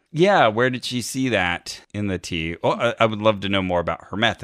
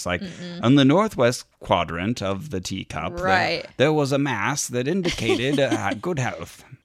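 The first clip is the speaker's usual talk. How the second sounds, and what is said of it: Fancy dandyish put-on accent. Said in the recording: “that accent all of a sudden ... like a dandy in an Oscar Wilde movie ... Fancy voice”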